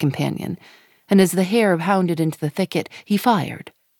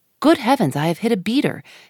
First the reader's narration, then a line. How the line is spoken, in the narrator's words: exclaimed Sir Geoffrey